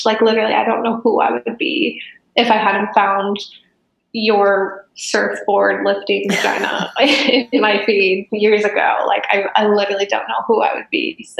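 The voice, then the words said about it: Emotional, moved voice. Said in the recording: “I'm getting emotional talking about it”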